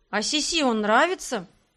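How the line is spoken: Dejected voice, mushroom. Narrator (Russian): спросил упавшим голосом гриб

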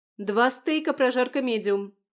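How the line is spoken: Shouting. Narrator (Russian): кричала я

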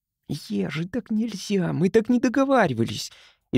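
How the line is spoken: Frightened whisper. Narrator (Russian): испуганно зашептал Тим

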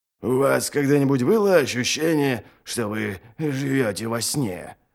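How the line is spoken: Mumbled. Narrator (Russian): пробормотал Ральф

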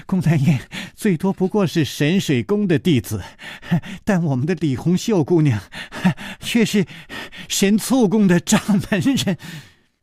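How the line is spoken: Breathless, laughing. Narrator (Chinese): 宋田儿 喘着气笑着说

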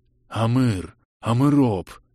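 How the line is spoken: Crowd muttering. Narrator (Russian): бормотала толпа

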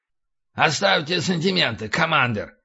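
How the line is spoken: Sharp shout. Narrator (Russian): прикрикнул Хаксли

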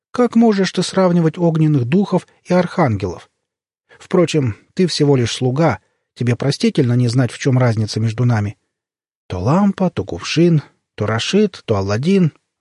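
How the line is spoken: Archangel sighing. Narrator (Russian): вздохнул архангел Джабриль

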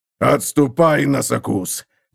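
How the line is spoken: Hoarse rasp. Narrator (Russian): прохрипел он

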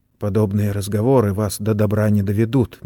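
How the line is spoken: Gentle. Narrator (Russian): мягко заметил Сэм

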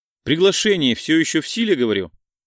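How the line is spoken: Businesslike question. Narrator (Russian): практически деловым тоном спросила Полина

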